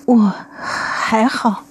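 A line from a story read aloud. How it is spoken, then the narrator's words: Frightened, forced wry smile. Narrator (Chinese): 八世吓得苍白的脸上勉强挤出了一丝苦笑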